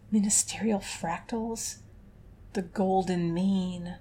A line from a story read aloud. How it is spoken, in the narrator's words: Calyx muttered, her face gone paler than usual